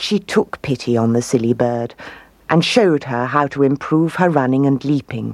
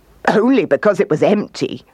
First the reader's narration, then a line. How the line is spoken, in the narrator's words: laughed the kangaroo